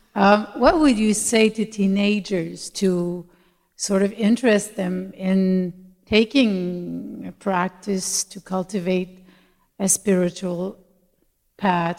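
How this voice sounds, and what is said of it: Québécois accent in English. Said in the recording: “I'm from Montreal, so sorry for my accent. ... Québécois.”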